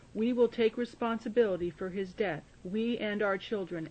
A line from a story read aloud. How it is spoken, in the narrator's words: all the people yelled back